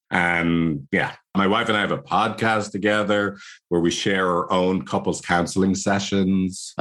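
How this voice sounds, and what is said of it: Irish accent. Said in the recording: “my annoying Irish accent”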